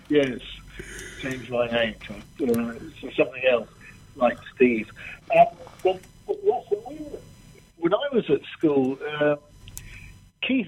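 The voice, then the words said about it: Posh English public school accent. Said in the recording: “you may be able to tell from my accent, I went through the English public school system”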